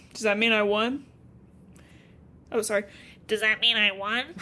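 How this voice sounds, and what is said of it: Nasal pinched-nose nerdy voice. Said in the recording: “nerd voice pinching your nose”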